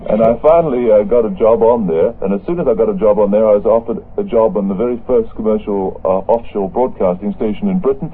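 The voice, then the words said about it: Australian accent. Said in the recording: “a terrible Australian accent”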